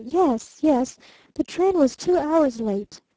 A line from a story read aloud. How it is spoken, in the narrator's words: she stammered